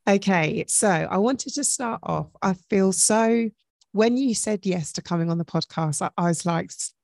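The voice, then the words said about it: Deep, hoarse sore-throat voice. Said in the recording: “I don't usually sound like this. I've got a bit of a sore throat ... A bit Barry Whitish today”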